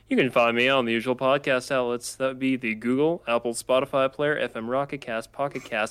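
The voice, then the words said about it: Announcer voice. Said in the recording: “I'm doing my announcer voice.”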